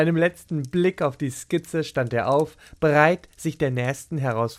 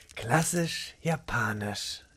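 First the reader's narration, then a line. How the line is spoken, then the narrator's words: Murmuring again. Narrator (German): murmelte erneut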